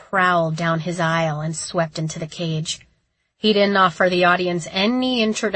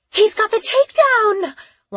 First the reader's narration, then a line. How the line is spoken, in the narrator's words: one of the women in front of me squealed